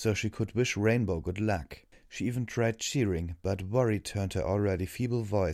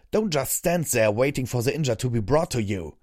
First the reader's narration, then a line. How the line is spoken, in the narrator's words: Redbrand barked